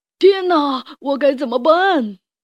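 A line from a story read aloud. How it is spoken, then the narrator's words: Shrieking. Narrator (Chinese): 石头鱼尖叫着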